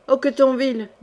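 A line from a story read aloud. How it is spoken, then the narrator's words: Toneless voice. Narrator (French): dit Jean sans peur, d'une voix blanche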